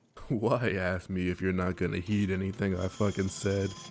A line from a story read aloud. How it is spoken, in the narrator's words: He half chuckled